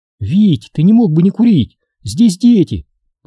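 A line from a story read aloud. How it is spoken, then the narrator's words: Tense request from wife. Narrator (Russian): попросила жена напряженным голосом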